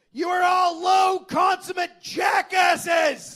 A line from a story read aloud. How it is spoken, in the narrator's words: Charles stepped forward and yelled